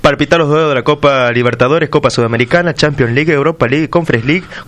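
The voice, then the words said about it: Radio announcer voice. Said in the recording (Spanish): “Con esa voz de locutor.”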